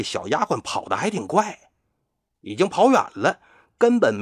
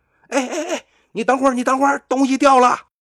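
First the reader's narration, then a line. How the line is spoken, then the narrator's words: Hurried call. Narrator (Chinese): 南宫安赶紧喊那小丫鬟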